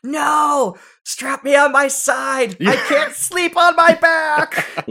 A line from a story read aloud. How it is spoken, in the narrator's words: I'd be screaming